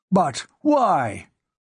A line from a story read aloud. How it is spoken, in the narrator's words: Moss demanded angrily